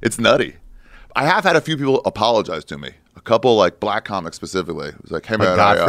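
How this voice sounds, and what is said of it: Usual voice. Nothing is said of it.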